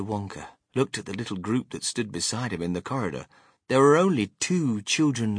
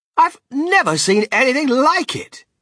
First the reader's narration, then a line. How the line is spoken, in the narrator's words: cried Mr